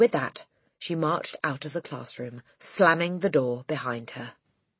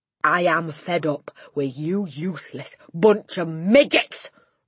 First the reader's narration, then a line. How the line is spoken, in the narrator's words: roared the Trunchbull